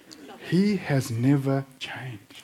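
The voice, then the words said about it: Mixed South African and British accent. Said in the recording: “I have this accent, which is kind of this bizarre mix of coloured South African, a little bit of bizarre UK and Singapore thrown in, and then I've gone and lived in regional Queensland”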